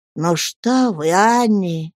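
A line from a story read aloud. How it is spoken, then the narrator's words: Gentle. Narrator (Russian): ласково сказал доктор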